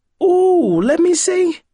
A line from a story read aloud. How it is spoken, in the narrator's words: she exclaimed